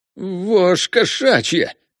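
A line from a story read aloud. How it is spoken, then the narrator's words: Youth howling. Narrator (Russian): взвыл юнец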